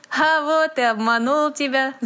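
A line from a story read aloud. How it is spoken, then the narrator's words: Laughing. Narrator (Russian): засмеялся Дэви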